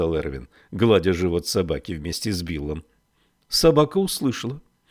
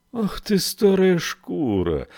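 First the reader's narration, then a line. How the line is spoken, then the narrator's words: Tender exclamation. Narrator (Russian): воскликнул он нежно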